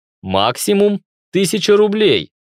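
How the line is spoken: Stern interruption. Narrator (Russian): строго остановил его я

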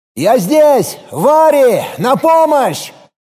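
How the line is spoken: Strained louder shout. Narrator (Russian): Филипп попытался крикнуть громче

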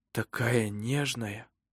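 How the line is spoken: Surprised whisper. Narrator (Russian): прошептал он удивленно

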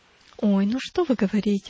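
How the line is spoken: Exclaimed. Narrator (Russian): воскликнула Христиана

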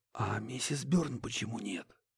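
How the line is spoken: Barely audible question. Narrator (Russian): едва слышно спросил Курт

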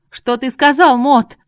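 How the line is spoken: Yelling over loud noise. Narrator (Russian): Заорала, потому что нарастающий гул в зале становился невыносимым

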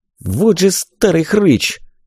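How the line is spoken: Contemptuous spat-out words. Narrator (Russian): сплюнул казначей

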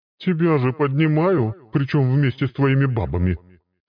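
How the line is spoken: Snorting. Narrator (Russian): хмыкнула она

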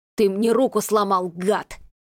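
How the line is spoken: Hiss. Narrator (Russian): прошипел Крис

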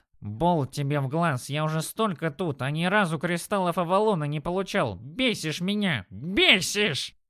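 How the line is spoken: Grumbling goblin. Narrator (Russian): Заворчал гоблин

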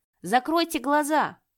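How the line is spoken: Alarmed shout. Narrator (Russian): Ян Джинмин почувствовал, как тревога кольнула его сердце, и закричал

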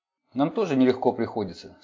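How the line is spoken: Plain. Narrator (Russian): сказал Джек

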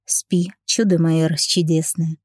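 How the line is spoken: Tender, affectionate. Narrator (Russian): ласково проговорил я

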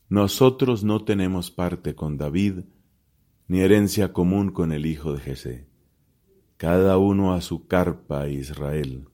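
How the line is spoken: Exclaimed. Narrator (Spanish): exclamó

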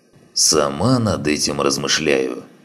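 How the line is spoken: Plain. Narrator (Russian): ответила Мюллер

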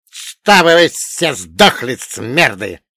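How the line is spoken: Hissing snake-like whisper. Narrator (Russian): прошипел свистящим змеиным шепотом

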